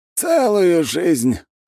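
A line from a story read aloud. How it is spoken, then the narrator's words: Snorting reply. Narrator (Russian): хмыкнул в ответ аярлык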